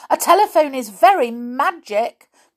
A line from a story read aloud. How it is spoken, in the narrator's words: cried Tom the toy soldier